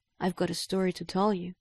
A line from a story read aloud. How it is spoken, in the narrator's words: he says